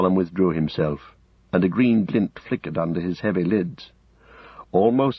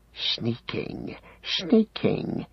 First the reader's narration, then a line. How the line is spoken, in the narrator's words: he hissed